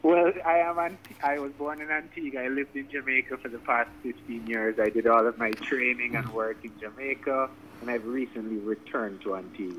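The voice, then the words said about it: Jamaican-sounding accent. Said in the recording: “you sound Jamaican.”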